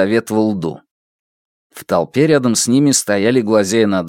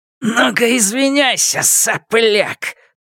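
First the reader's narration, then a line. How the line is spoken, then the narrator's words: Hissed. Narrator (Russian): прошипел Черныш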